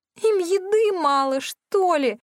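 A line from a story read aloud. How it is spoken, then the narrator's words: Whining. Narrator (Russian): Кира захныкала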